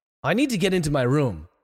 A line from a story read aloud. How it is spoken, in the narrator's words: Donald exclaimed desperately